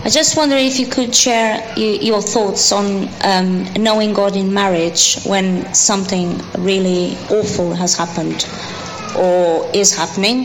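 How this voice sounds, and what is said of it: Speaks with a noticeable accent. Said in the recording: “I hope they understand my accent.”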